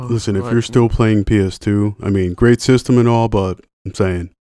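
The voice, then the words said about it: Imitates another person's voice. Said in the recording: “that was an impression ... I just throw voices out there”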